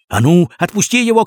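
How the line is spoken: Shouted. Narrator (Russian): крикнул Крендель

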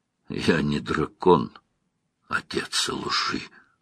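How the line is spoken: Hoarse rasp. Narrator (Russian): прохрипел Ранд

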